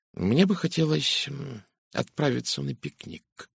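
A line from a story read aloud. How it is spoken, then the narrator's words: Mumbling. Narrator (Russian): пробормотал детектив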